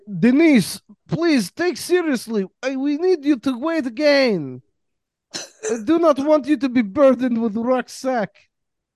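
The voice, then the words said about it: Put-on Estonian accent. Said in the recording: “that is as close to Estonian as we're gonna get accent wise”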